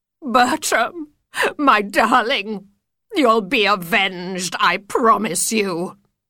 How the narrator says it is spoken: she sobs

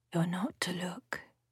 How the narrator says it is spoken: she whispers in my ear

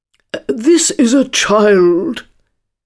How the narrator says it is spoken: Hare replied eagerly

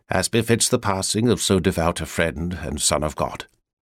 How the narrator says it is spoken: said quietly

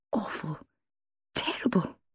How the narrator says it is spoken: she muttered in a strangulated voice

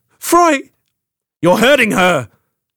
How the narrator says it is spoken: Froy shouted, trying to get to her

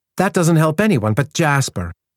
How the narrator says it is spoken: said Tamara crossly

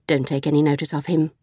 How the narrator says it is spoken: Jackie said quickly

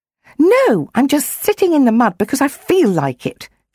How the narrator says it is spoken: she snapped

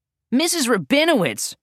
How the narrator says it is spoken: hollered

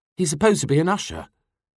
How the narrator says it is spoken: she sighed irritably

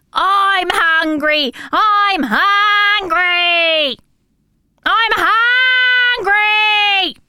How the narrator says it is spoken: would scream

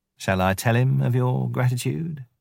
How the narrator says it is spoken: said Tabaqui

